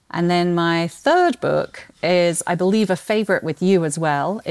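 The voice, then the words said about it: British accent with Australian twang. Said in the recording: “I'm British by birth, but people can pick up the Australian twang still in my accent.”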